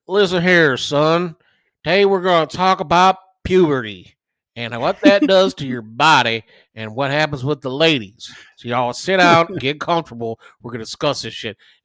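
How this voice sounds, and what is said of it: Put-on Southern drawl. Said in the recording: “with his southern drawl ... I know I'm fucking slaughtering your accent”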